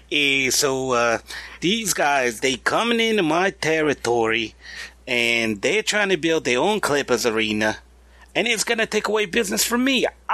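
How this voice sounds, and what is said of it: Bad New York accent impression. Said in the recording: “that was a really bad impersonation. He's from New York”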